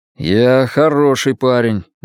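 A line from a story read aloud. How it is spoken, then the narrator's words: Gloomy objection. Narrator (Russian): мрачно возразил он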